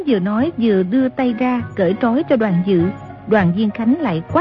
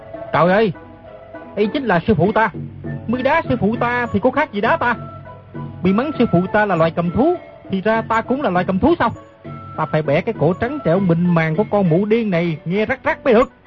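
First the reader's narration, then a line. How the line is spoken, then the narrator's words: Loud angry shout. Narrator (Vietnamese): Nam Hải Ngạc Thần quát lớn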